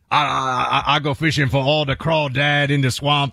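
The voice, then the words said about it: Put-on Cajun accent. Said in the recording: “we need a real Cajun accent now to compare this to”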